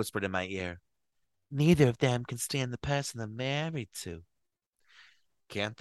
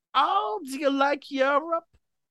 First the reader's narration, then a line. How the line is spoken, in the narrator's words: Kathleen exclaimed surprisingly